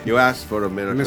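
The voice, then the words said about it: Imitates another person's voice. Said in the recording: “Do your best Alan Rickman impression”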